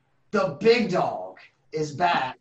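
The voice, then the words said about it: Michael Cole announcer impression. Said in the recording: “in my best Michael Cole voice,”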